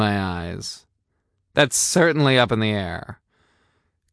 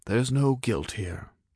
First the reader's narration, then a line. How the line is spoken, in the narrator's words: he said quietly